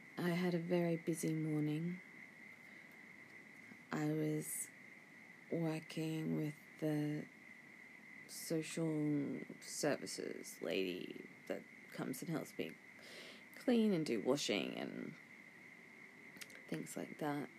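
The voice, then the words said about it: Sleepy, drowsy voice. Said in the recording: “Can you hear the sleepiness in my voice?”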